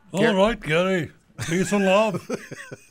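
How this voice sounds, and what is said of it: Imitates another person's voice. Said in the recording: “That's not really Ringo. That's a voice impersonation”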